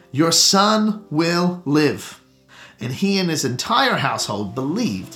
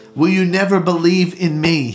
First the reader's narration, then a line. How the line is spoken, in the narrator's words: he says